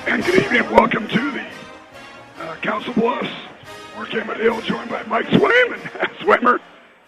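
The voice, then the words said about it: Hoarse, strained voice. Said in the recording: “I'm losing my voice. ... we're battling some vocal cords.”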